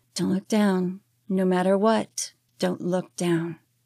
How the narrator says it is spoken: I talked to myself softly, saying

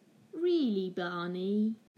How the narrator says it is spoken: Lou just laughed and said

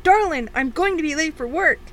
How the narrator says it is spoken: shout

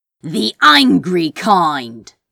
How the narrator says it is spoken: Crow growled

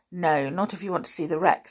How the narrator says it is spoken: said George

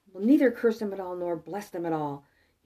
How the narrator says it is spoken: The king of Moab, disheartened and distressed, exclaimed

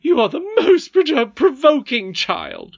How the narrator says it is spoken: cried her nurse

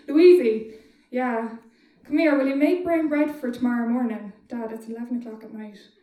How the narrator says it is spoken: shouted upstairs

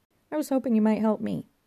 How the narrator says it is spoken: said Johnny

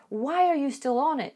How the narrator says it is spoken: She shouts to her daughter from her office

